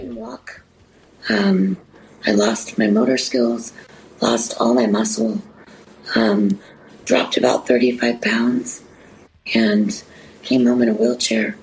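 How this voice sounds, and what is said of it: Slightly raspy voice. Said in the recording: “I still got a little bit of raspy voice from having a tracheotomy.”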